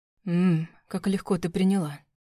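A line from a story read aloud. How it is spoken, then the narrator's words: Whispered in ear. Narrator (Russian): прошептал он на ухо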